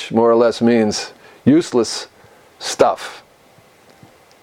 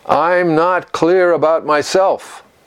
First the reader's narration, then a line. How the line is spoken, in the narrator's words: Yunmen said, perhaps somewhat desperately